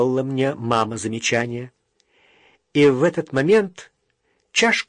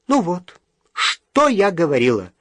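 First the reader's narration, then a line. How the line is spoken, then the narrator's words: Mother's exclamation. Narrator (Russian): воскликнула мама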